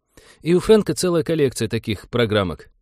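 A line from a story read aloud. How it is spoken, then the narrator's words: Sighing. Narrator (Russian): вздохнул Винни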